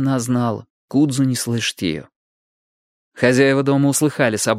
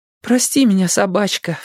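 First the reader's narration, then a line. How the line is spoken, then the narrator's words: Sobbing. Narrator (Russian): всхлипывала Цин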